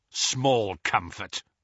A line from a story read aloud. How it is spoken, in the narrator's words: snarled Kingsley